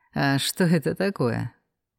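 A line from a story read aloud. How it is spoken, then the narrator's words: Sad scoffing reply. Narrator (Russian): печально хмыкнул он в ответ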